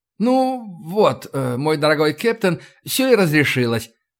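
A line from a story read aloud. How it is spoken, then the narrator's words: Beaming exclamation. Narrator (Russian): воскликнул О'Кив, сияя улыбкой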